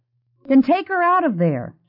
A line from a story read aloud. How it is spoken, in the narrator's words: Jeannie said indignantly